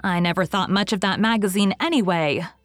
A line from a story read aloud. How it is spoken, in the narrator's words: said Diana hotly